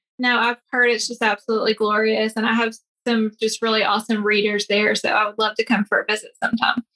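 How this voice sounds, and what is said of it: Tennessee accent. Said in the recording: “from Tennessee, right? I noticed an accent there.”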